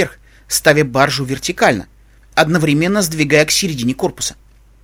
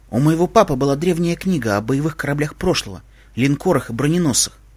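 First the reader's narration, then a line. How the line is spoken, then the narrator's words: Quiet. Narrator (Russian): тихо сказала Аля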